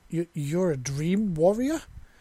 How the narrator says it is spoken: She exclaimed

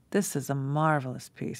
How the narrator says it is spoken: said, sighing

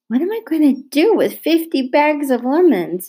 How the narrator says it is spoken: she moaned

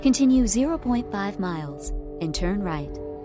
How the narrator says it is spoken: The GPS chirps

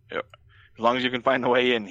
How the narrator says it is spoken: he laughs

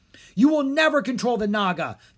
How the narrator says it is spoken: the twins yelled

